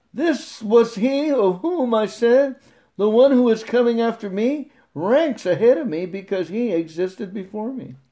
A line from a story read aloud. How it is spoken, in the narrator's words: John testified to this and cried out, saying